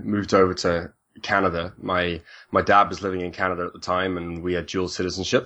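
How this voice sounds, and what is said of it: British accent. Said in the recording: “I grew up in the UK, hence the the, the accent”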